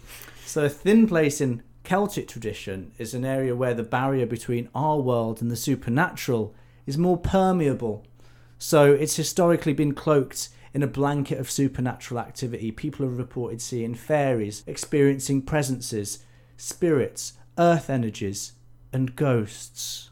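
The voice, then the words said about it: Shane Dawson impression. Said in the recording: “You doing your Shane Dawson voice?”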